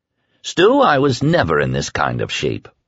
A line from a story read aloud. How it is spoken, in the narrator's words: said grimly